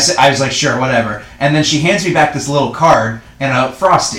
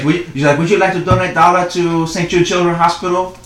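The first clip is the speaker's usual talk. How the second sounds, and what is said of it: Badly done unidentified put-on accent. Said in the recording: “That's a terrible accent. I don't even know what it was that I just did.”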